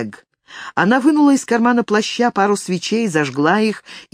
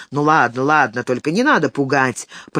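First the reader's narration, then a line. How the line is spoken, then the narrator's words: Grumbling. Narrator (Russian): проворчал Одо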